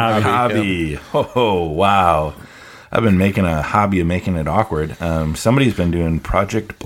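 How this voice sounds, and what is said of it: Usual voice. Nothing is said of it.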